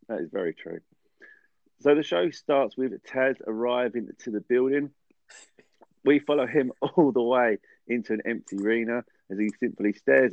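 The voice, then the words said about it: Voice of someone with a cold. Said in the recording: “Please excuse my cough ... I've got a cold. Just a cold”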